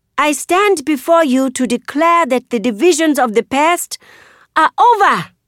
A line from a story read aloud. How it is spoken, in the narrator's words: I shout